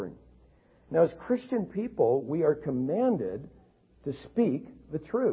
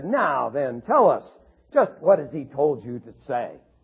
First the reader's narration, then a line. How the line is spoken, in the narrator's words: the attorney triumphantly said